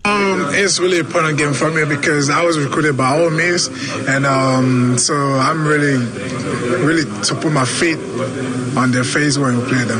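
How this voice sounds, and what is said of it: Nigerian-accented English, somewhat hard to understand. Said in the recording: “he has an accent, so it's going to be a little bit difficult to hear. I think he's from Nigeria ... So he's got an accent”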